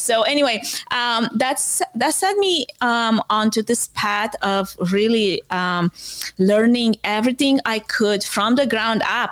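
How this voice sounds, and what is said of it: Foreign accent in English. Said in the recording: “I have an accent”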